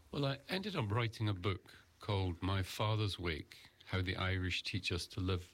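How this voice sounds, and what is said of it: Scottish accent. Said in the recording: “the discerning ear will detect a Scottish accent.”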